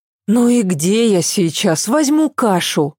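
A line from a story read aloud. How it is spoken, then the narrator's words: Sighing. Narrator (Russian): вздохнула она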